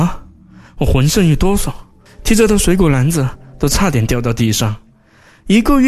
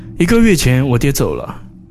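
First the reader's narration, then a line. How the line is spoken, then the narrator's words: Sighing. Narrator (Chinese): 小平头叹了一口气说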